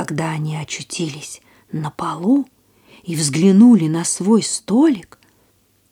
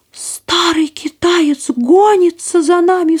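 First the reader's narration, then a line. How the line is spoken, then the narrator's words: Sharp cry. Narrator (Russian): вскрикнула пастушка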